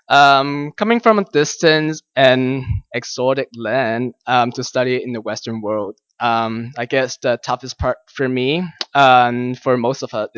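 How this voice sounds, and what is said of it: Chinese accent. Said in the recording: “Some of you might be able to tell by my accent that I'm Chinese.”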